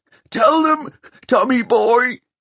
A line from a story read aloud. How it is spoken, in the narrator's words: He whimpered